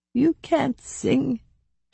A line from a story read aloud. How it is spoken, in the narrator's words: she croaked, smiling the tiniest bit